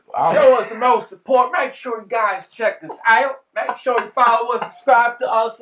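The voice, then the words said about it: Put-on country accent. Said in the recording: “Can you tell us in a country accent again? ... You gotta talk like that the whole time.”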